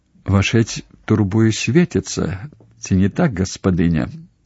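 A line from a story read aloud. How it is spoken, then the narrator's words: Quiet question. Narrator (Belarusian): ціха запыталася Краска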